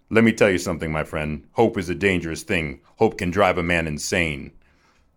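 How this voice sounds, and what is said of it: Morgan Freeman impression. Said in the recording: “I did his voice. ... That's got to be Morgan Freeman”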